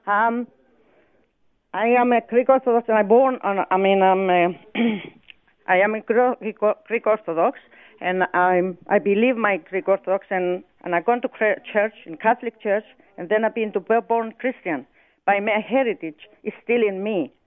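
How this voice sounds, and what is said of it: Slight Greek accent. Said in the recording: “I detect a bit of a Greek accent.”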